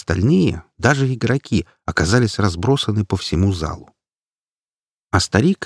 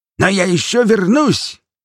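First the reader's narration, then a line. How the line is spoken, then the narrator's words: Sudden bark. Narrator (Russian): внезапно рявкнул Одоакр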